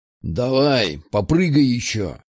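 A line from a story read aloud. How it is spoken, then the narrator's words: Grumbling. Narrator (Russian): проворчал один из них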